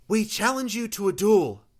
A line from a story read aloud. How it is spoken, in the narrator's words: Rose called out